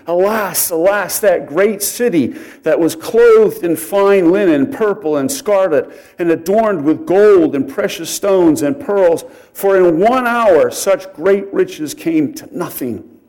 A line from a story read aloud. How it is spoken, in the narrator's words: The merchants of these things who became rich by her will stand at a distance for fear of her torment, weeping and wailing and saying